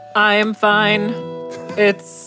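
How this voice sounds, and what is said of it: Flat monotone robotic voice. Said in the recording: “that was very monotone. ... That's my robot voice.”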